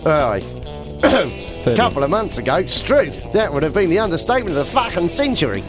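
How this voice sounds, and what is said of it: Put-on Australian accent. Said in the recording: “Why do you do it in an Australian accent then?”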